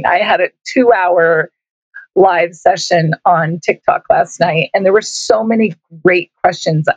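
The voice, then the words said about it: Hoarse, raspy voice. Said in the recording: “My voice is a little hoarse. ... I have the raspies.”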